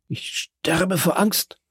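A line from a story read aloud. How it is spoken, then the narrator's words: Stammering. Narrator (German): stammelte Caderousse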